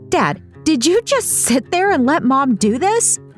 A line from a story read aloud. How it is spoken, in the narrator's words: Palma said with an incredulous chuckle